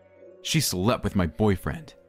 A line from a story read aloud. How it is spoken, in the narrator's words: Tanya said